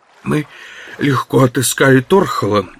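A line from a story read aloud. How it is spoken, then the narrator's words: Hoarse voice. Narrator (Russian): начал он хриплым голосом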